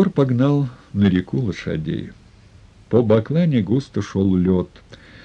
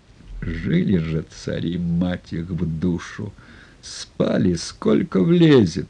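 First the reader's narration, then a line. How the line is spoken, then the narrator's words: Drowsy contented mumble. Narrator (Russian): с величайшим удовольствием зажмурился, засыпая, забормотал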